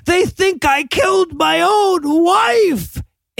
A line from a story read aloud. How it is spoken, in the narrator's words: he just starts screaming